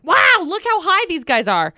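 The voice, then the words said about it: Exaggerated excited voice. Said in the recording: “your impression of a dolphin on top of your excitement of how high hot dolphins can jump? ... that was my impression of myself”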